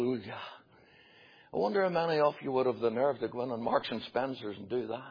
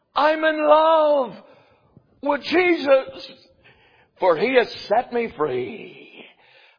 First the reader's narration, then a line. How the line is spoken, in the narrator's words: he shouts back